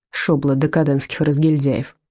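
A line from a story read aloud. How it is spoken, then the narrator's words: Grumbling. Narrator (Russian): проворчал Венке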